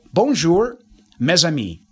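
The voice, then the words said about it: French phrase in American accent. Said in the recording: “I'm now speaking French using the pronunciation rules of English ... using the American pronunciation rules ... I'm speaking English with French words”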